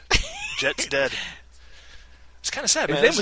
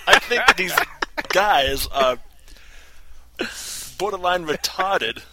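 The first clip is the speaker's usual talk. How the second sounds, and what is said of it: Christopher Walken impression. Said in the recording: “That was my Jay Moore Christopher Walken.”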